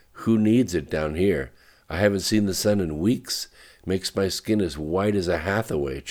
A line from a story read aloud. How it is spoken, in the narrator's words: chuckled Lorraine